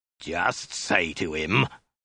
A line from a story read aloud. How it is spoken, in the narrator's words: the soldier snarled again